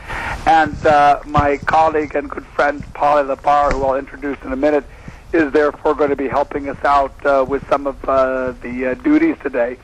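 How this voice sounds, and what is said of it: Strained, worn-out voice. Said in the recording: “you can hear my voice isn't quite what it should be. I've discovered that if you spend 40 hours on an airplane in the week, that happens”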